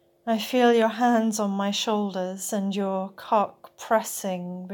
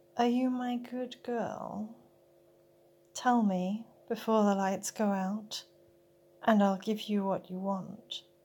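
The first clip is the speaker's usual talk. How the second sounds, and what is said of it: Whispered line. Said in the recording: “You whisper”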